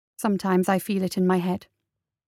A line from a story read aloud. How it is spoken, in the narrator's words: said quietly